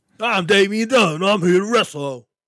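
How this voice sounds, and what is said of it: Imitates another person's voice. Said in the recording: “Give me your best Damian Dunn impression ... That was good. Wow.”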